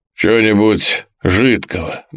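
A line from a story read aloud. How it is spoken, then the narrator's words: Grumbled. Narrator (Russian): буркнул он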